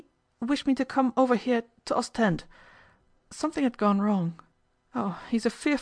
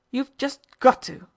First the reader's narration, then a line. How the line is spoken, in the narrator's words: Nella said, in a terrible, remorseless tone